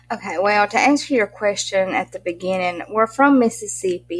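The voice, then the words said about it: Strong Southern US accent. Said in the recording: “We're Southern as can be. I didn't know how Southern I was until everybody pointed it out... I used to sound just like you... they love this accent... I sound like a hillbilly... I had no clue how country I was”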